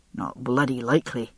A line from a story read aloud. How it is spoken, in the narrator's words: he muttered under his breath